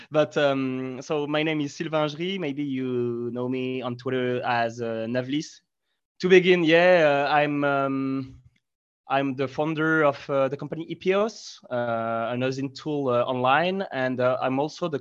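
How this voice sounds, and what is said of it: French-accented English. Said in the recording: “my English accent. I mean, I'm French”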